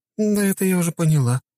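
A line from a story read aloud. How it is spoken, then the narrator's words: Sad sigh. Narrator (Russian): с грустью в глазах вздохнула моя супруга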